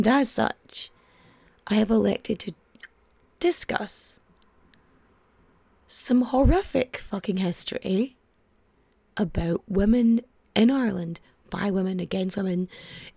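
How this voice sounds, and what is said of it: Slightly raspy voice. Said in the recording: “I'm still a little bit raspy. My voice still hasn't fully come back.”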